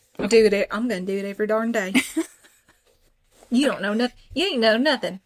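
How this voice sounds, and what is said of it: Put-on country accent. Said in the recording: “You're speaking with a country accent.”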